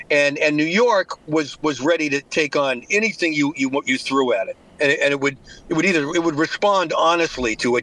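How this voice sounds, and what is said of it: Slight Boston accent. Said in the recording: “I'm hearing that slight Boston accent. ... Yeah, the accent. Yeah, it comes in and out.”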